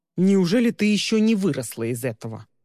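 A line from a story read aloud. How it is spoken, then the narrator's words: Grumbling. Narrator (Russian): проворчал Тристин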